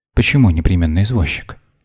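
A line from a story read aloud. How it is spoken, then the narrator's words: Plain. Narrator (Russian): спросила Вера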